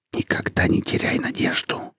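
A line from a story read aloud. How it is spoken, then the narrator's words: Whisper. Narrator (Russian): прошептал Виктор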